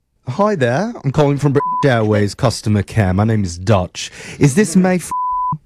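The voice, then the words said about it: Bad fake British accent. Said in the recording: “my absolute worst British accent”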